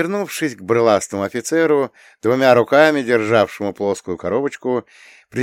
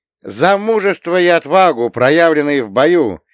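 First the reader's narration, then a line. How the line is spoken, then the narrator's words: Loud. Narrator (Russian): громко заговорила она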